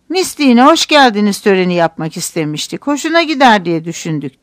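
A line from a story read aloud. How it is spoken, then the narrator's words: Plain. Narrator (Turkish): dedi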